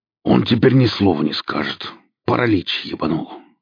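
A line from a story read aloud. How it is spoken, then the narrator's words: Gruff growl. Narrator (Russian): рыкнул бородач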